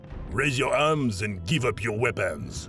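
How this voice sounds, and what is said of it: Deep commanding character voice. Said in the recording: “the deep voice commanded”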